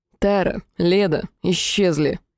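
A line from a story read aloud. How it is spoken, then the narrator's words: Calm. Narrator (Russian): светлый спокойно произнес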